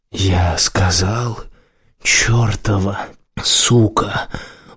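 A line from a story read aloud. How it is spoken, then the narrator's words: Hoarse rasp. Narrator (Russian): прохрипел он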